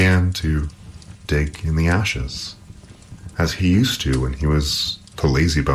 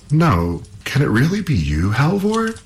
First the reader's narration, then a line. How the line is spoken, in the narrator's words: She cried